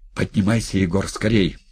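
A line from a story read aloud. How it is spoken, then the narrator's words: Strained urgent voice. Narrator (Russian): сдавленным голосом торопил Макар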